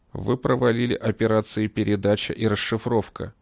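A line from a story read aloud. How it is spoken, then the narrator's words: Even, flat voice. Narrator (Russian): ровным голосом говорил генерал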